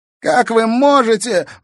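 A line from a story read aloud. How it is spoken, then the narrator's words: Sudden shrill shriek. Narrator (Russian): взвизгнул вдруг в машине Бельцев, выходя из оцепенения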